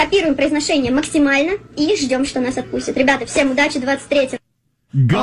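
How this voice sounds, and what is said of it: Usual voice. Nothing is said of it.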